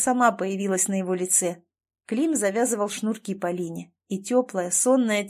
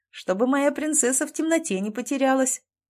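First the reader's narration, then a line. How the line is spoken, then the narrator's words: Happy laughter. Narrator (Russian): Катюша счастливо рассмеялась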